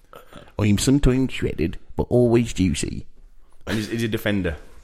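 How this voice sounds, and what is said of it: Badly imitated accent. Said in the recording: “the perfect impression ... that's the worst accent ever”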